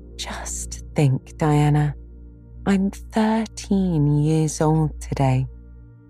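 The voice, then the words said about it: Awed voice. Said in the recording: “in an awed voice.”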